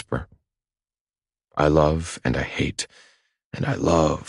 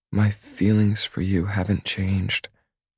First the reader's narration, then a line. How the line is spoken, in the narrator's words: she says, her voice low and reassuring